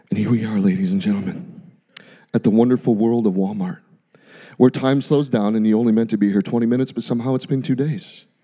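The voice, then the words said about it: Golf announcer impression. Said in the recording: “they talk like a golf announcer ... It's my best impression.”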